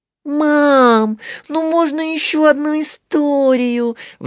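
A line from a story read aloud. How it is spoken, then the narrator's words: Pleading. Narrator (Russian): взмолилась Мари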